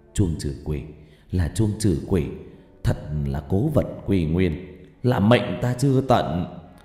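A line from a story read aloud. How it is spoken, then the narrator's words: Excited whisper. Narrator (Vietnamese): Cụ thì thào trong nỗi phấn khởi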